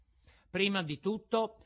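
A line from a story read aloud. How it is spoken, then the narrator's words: Plain. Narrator (Italian): rispose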